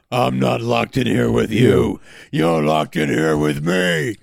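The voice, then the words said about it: Rorschach character impression. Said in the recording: “your Rorschach impression kind of sounds like Stallone ... It's like not as wilted ... but it's pretty close ... Stallone did Christian Bale's Batman voice”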